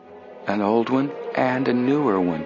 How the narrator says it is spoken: Joe murmured

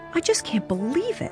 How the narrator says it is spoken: Nancy exclaimed

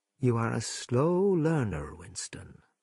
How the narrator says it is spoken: said O'Brien gently

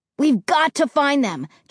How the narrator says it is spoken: Josh cried

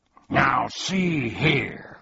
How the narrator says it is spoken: growled Tuck angrily

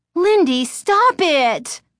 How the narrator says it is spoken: Chris cried

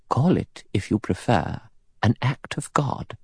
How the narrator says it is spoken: Emily Brent said quietly

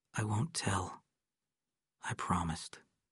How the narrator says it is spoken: Adam said softly

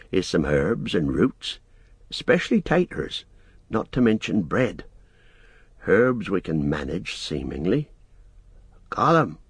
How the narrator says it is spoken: he called softly

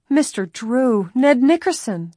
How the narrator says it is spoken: the cousins cried in relief

